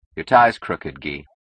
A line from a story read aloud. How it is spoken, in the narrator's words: said Keating dryly